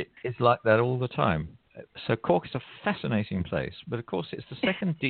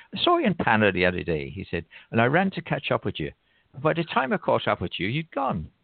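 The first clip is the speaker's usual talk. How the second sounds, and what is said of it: Put-on Cork Irish accent. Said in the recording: “you do begin to speak a bit Corkinese ... I love that accent.”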